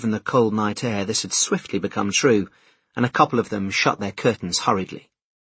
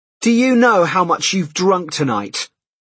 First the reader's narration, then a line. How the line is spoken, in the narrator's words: he yelled through the open door